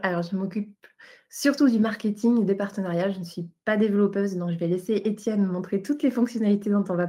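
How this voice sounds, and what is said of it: European French accent. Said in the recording (French): “vous voyez à l'accent, moi, je suis du côté Europe”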